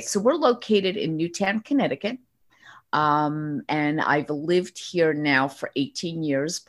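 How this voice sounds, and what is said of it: Slight New York accent. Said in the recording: “you can hear that that New York accent coming just a little. a little. ... I call it the Brooklyn Bronx and Queens accent.”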